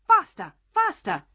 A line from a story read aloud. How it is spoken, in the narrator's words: cried the queen